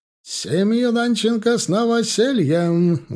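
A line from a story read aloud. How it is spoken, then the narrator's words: Booming shout. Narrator (Russian): громогласно прокричал новый гость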